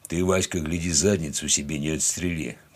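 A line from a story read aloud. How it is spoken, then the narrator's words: Deep bass voice. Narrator (Russian): пробасил он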